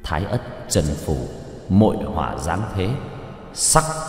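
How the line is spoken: Muttered incantation. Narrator (Vietnamese): trong miệng lẩm bẩm

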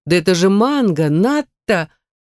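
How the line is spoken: Loud laughter. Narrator (Russian): расхохоталась

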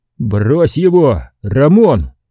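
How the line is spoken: Shout. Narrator (Russian): закричал я

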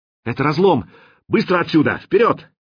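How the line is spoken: Shouted in unison. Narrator (Russian): Кирилл, Нешек и Мировой закричали одновременно

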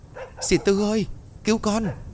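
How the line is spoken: Frightened cry. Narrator (Vietnamese): Hiền sợ hãi đứng khựng lại rồi kêu lên

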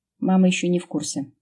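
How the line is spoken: Calm. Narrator (Russian): спокойно выдал Матвей

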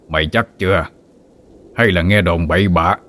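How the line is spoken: Shout. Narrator (Vietnamese): Năm Tràm quát lên

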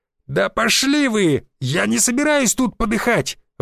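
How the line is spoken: Trembling shout. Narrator (Russian): выкрикнул студент дрожащим голосом

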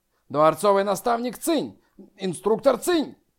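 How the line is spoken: Gasp, then joint shout. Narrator (Russian): Секунгду и Мужун И одновременно втянули воздух и, соответственно, крикнули

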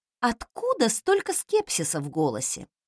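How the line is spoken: Snorting, skeptical. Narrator (Russian): фыркнула я

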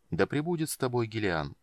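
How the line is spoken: Soft. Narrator (Russian): мягко произнес архимаг

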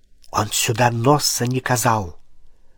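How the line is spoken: Near whisper. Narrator (Russian): сказал барон отчего-то почти шепотом

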